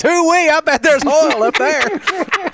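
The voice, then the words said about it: Put-on Texas accent. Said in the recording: “a Texas accent”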